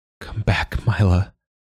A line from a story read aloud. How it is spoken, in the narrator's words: he murmured